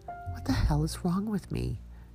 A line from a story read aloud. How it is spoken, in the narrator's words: Jana muttered as she fumbled at the lock